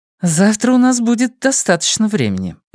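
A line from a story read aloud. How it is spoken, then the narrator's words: Suppressed laughter. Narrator (Russian): заметила она, сдерживаясь, чтобы не рассмеяться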